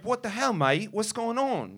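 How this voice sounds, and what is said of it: Put-on British accent. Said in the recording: “I started doing this British accent”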